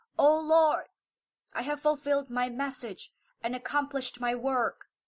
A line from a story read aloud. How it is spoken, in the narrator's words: The Prophet concluded his sermon by exclaiming